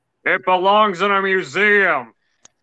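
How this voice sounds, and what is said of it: Imitates a movie character's voice. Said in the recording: “my Indiana Jones impression ... from Last Crusade”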